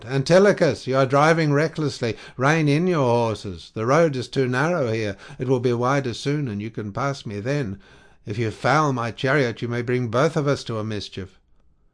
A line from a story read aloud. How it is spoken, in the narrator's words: The son of Atreus was afraid and shouted out